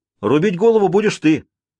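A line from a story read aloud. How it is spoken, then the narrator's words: Shouted. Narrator (Russian): крикнул Симон Крутой Арни Язве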